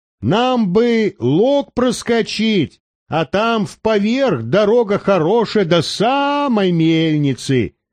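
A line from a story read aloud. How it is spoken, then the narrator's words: Shouting into snowy wind. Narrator (Russian): крикнул перхуша, жмурясь от снежного ветра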